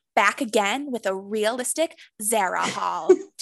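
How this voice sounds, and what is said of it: Impression of Remy Bader. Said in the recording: “Remy Bader from Instagram or from TikTok, who does the realistic hauls ... That was such a good impression.”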